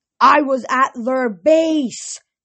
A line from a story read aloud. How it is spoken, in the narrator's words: Thalia yelled